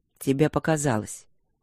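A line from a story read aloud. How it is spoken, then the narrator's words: Dry. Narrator (Russian): сухо произнес он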